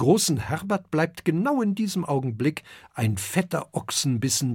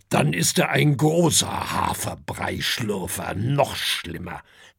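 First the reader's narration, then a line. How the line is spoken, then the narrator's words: Grumbled. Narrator (German): brummt Herbert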